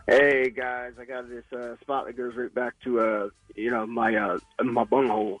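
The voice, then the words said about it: LBJ impression. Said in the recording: “Nice LBJ impression. ... I thought he was trying to do part of his Rocky impersonation.”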